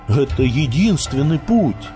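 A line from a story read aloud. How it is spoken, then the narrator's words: Bewildered. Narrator (Russian): растерянно сказал Леонид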